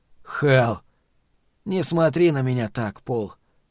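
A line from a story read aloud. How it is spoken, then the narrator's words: Sad, smiling. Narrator (Russian): грустно улыбнулся Норт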